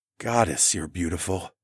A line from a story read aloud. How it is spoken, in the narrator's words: I whispered to her